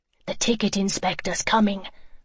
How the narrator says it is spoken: Joey was whispering out of the corner of his mouth

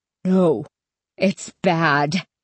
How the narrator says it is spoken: Stanley insisted in a trembling voice

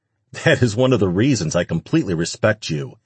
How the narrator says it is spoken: he said between barks of laughter

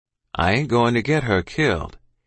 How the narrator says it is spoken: he said in his calm voice

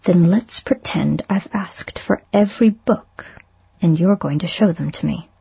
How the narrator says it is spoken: he said

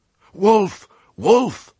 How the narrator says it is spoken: cried the flock in dazed confusion

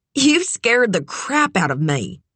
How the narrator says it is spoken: she said, letting out a nervous laugh

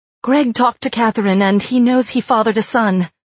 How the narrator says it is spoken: Shirley blurted out

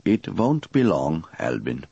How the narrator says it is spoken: added solemnly

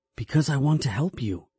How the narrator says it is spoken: I said quietly

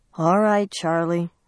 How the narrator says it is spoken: she said wearily

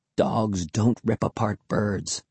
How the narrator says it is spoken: Will replied quietly

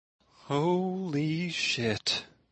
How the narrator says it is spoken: Lark whispered

